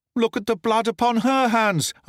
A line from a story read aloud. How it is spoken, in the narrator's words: I cried